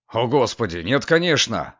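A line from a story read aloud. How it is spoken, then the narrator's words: Plain. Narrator (Russian): ответил Гордон Линг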